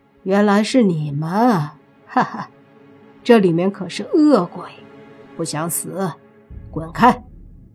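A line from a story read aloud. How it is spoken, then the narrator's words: Sneering. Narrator (Chinese): 那两人冷笑一声，说道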